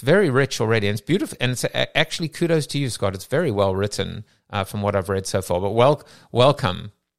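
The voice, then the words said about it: School teacher accent. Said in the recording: “It's your accent. ... it's well the accent. ... Like a school teacher accent.”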